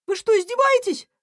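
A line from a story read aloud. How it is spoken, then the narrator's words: Yelling little hedgehog. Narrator (Russian): завопила ежинка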